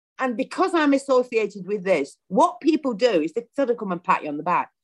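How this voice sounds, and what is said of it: Broad northern English Lancashire accent. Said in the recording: “I've got a broad northern accent ... It's not Yorkshire ... It's Lancashire”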